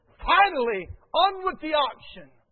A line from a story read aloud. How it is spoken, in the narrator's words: An eager buyer from the second row bellowed